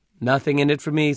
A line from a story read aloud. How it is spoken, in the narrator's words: said the watchman